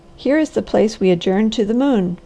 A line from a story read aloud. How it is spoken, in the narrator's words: cried the Harvester